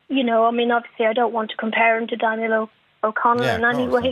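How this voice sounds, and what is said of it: Dublin Irish accent. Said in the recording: “is a Dublin accent.”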